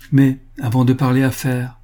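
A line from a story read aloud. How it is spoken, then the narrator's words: Cheerful. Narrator (French): ajouta-t-elle gaiement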